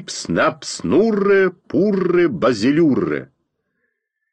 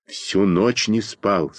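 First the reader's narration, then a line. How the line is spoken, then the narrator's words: Secretive whisper. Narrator (Russian): сказал я шепотом, чтобы нас с Костей кто-нибудь не подслушал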